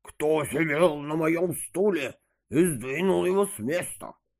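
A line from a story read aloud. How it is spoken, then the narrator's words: Growled, not so loudly. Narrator (Russian): зарычала не так громко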